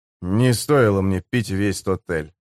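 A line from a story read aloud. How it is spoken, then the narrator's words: Grumbled. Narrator (Russian): пробурчал Грейвс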